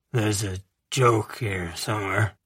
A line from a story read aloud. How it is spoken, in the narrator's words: Beau muttered